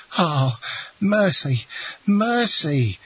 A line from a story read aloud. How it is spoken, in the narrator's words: cried Caderousse